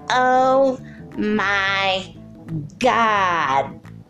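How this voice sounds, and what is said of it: Imitates Janice from Friends. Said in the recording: “that deserves a Janice impression from Friends ... Okay, it wasn't as good as I have done in the past”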